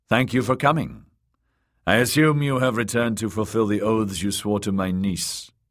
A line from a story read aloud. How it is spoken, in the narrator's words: Sir Brynden said